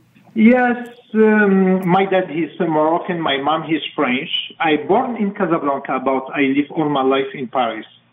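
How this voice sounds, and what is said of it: Speaks with a distinct accent. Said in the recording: “that fantastic accent”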